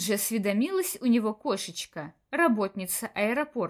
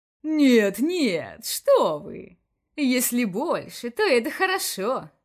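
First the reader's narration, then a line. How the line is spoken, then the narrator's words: Laughing. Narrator (Russian): рассмеялся Вольдемур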